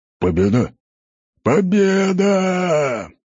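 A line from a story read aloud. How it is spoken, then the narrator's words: Warriors roaring together. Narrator (Russian): взревел воин с топорами, а за ним и остальные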